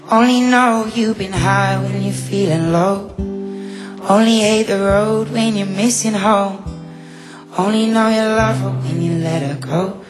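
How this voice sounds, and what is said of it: Singing with a noticeable accent. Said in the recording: “Sounds so cool with your accent. It sounds amazing.”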